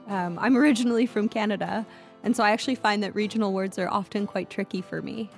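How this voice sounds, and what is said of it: Slight accent. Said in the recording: “I have a bit of an accent”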